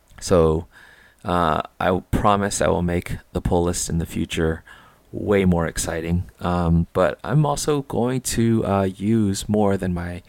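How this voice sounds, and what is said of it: Quiet, subdued voice. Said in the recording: “my voice is different ... I'm trying not to be too noisy”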